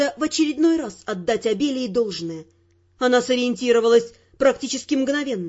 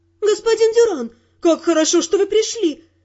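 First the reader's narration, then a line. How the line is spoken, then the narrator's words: Frightened, relieved female exclamation. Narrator (Russian): воскликнула певица, и в красивом женском голосе испуг смешался с чувством облегчения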